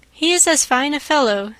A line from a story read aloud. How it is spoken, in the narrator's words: said Mr